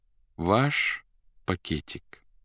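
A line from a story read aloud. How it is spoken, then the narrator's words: Thoughtful, soft, polite. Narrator (Russian): задумчиво сказал первый, и спросил Никанор Ивановича мягко и вежливо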